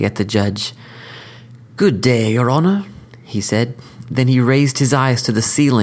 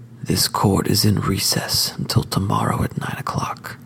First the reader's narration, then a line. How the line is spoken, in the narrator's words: he whispered